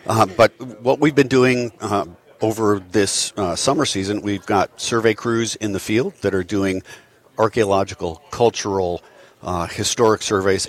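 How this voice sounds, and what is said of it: Slightly hoarse, croaky voice. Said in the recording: “I have a little bit of a frog in my throat”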